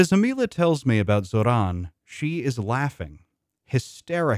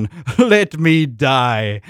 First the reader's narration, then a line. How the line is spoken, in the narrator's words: her laughter is renewed, louder than before